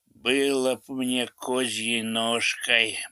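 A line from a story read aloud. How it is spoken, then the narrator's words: Medic muttering. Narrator (Russian): бормочет фельдшер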